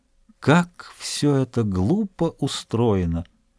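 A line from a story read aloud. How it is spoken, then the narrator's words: Pensive whisper. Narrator (Russian): Дюруа, которого тишина церкви располагала к размышлениям о высоких материях, прошептав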